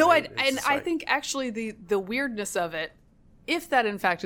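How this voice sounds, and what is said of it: Usual voice. Nothing is said of it.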